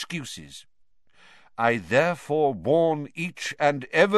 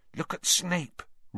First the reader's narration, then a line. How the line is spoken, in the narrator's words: Ron hissed in Harry's ear